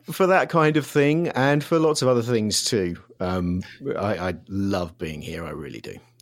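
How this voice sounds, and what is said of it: Non-American accent, from London. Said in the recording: “we can tell from your accent that you are not from there”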